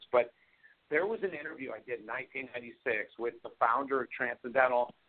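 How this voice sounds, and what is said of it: Hoarse, strained voice. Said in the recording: “I've been speaking a lot. I'm losing my voice.”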